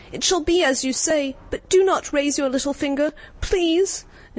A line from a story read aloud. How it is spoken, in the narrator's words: he cried